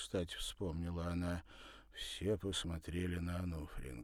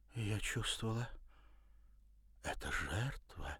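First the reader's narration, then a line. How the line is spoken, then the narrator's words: Barely audible. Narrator (Russian): едва слышно выговорила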